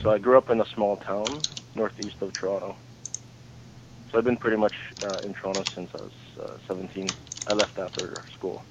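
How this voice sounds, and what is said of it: Canadian accent. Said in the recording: “You have that nice accent there. The nice Canadian accent.”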